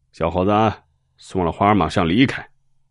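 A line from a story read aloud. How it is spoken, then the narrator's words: Loud, suddenly stern. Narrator (Chinese): 脸色一变，大声的说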